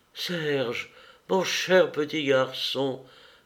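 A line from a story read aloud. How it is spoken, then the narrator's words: Stammering, choked with tears. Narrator (French): balbutia, étouffée par les larmes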